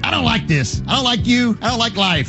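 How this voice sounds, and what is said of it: Imitates another person's voice. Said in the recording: “impersonations ... Shannon impersonation ... your impersonation of somebody else doing an impersonation of me”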